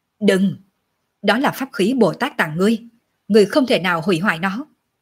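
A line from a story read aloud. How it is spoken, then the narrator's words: Urgent barking shout. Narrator (Vietnamese): Độc Lăng Quân lập tức biết hắn muốn làm cái gì, thì quát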